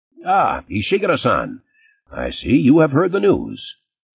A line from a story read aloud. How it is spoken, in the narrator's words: Morton said cheerfully